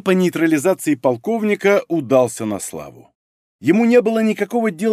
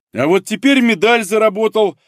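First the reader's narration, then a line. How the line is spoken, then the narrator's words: Laughing. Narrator (Russian): рассмеялся Савелий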